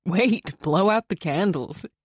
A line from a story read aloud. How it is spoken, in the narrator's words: he said, laughing